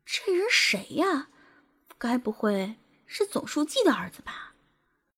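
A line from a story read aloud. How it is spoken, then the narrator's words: Awkward whispered muttering. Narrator (Chinese): 陆天佑他姐陆依婷、姐夫徐明还有些尴尬…小声的嘀咕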